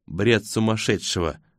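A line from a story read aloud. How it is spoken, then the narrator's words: Calm objection. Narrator (Russian): спокойно возражает она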